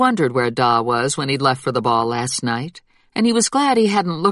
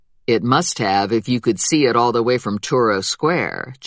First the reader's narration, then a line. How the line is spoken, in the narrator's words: Jack said dryly